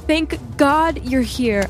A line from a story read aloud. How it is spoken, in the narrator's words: I shouted as I ran toward her